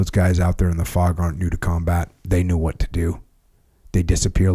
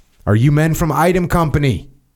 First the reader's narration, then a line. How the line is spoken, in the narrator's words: shouts into the rain and fog